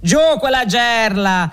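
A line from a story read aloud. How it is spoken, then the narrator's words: Shouted. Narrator (Italian): si grida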